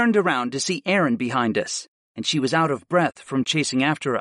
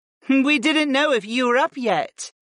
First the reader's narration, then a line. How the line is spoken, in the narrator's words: Nia laughed